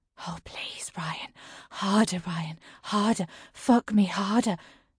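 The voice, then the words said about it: Breathy moaning character voice. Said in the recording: “says in a breathy voice.”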